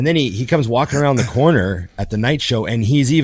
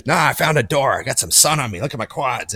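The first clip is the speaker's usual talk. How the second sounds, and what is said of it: Old man voice, sailor-like. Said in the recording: “my amazing old man impression ... He sounded like a sailor.”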